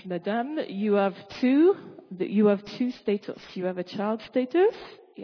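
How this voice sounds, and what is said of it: Imitated French accent. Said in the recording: “He had a beautiful French accent. I might lose that in a minute.”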